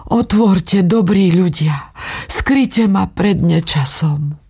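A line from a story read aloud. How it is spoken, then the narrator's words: Weak pleading voice. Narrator (Slovak): prosila slabnúcim hlasom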